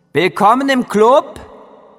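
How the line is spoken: Calling after someone. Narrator (German): rief Ratte hinter mir her

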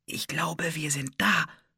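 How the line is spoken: Whispered. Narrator (German): flüsterte Anne

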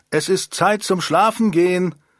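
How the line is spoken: Calling out. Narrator (German): rief sie

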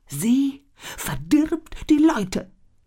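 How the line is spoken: Wailing shaman. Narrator (German): jammerte der Schamane

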